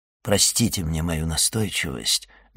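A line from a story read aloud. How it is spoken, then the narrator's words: Soft. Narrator (Russian): мягко продолжал Вильфор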